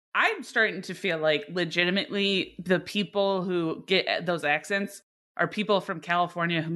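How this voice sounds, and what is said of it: Usual voice. Nothing is said of it.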